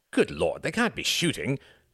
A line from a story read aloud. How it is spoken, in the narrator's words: cried Reginald